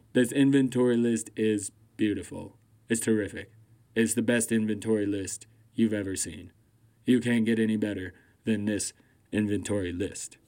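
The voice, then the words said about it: Poor Donald Trump impression. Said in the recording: “That sounded like Trump. ... I know the Trump impersonation is terrible. ... I think I got some of the cadences and the verbiage right. It's just the actual sound of the voice. I just can't hit”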